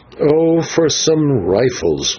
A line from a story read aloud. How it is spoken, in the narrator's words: groaned the Signor